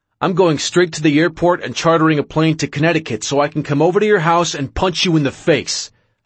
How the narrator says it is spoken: I screamed into the phone

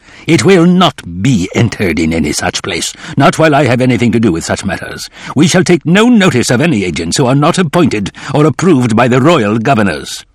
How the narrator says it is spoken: Hillsborough seemed to glow dark red, said in an angry growl

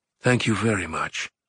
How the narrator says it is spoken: she whispered

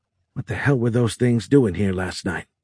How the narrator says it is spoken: Timothy muttered

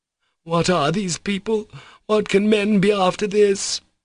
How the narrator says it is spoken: he exclaimed incoherently, in bitter despondency, almost despair

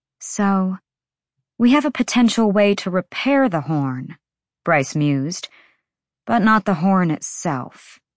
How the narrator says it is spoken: she sighed

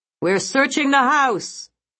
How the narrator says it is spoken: a man shouted

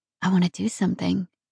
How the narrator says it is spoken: whispered

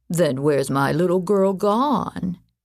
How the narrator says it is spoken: he repeated in a woebegone voice

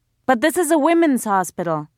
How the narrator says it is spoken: a woman shouted behind Mariam

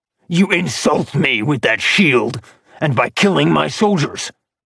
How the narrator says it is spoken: Acheron growled

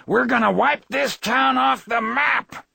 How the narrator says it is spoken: from the den behind her, like a horribly prescient curse, Rory Calhoun screamed

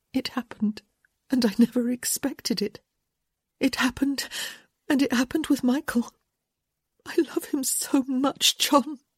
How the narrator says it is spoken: she said, her voice breaking with emotion

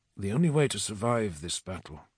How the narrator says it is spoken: I said softly

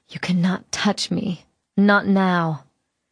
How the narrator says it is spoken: I whispered out loud

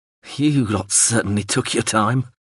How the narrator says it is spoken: he croaked, then spluttered and spat

